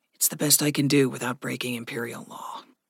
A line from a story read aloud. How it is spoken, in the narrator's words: Gregory said softly